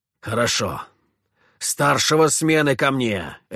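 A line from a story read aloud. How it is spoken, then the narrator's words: Barked. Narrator (Russian): рявкнул Петр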